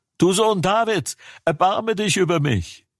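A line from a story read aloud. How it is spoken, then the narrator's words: Shouting even louder. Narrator (German): Er aber schrie noch viel mehr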